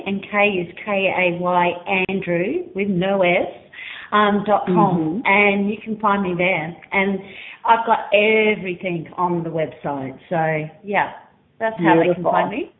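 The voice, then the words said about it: Australian accent. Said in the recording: “you are in Australia, correct? ... yes, the accent.”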